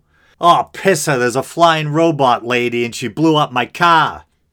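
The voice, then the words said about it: Exaggerated Boston accent. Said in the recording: “Boston or New England accents ... I do my best to suppress my accent, to round off all my R's or whatever, and it probably still comes through.”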